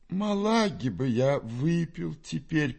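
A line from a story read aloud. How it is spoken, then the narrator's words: Moaning. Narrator (Russian): простонал Фома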